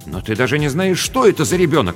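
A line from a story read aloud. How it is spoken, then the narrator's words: Exclamation. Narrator (Russian): воскликнул Рубен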